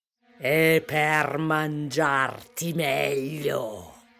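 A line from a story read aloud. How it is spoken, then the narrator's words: Wolf growling. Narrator (Italian): ringhiò il lupo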